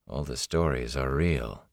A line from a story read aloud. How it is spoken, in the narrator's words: he said softly